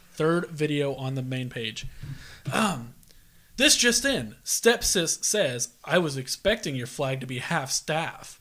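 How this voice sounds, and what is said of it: Serious monotone newscaster voice. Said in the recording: “say it with a serious monotone voice... Do your best newscaster voice.”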